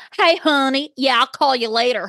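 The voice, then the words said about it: Exaggerated thick accent imitating Brittany. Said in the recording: “Her accent is so out of control... It's definitely gotten thicker... It's too much. It's put upon.”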